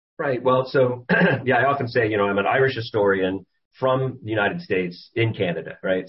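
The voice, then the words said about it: Non-Irish accent. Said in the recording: “You're not Irish. We can get that from the accent.”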